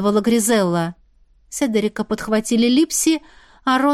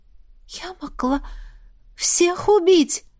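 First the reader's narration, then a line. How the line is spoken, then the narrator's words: Slightly panicked whisper. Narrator (Russian): прошептала в легкой панике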